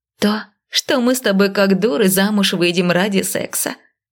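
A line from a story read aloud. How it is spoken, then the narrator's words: Mocking reply. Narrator (Russian): насмешливо отозвалась подруга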